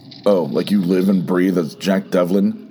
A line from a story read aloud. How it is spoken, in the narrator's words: Lee sneered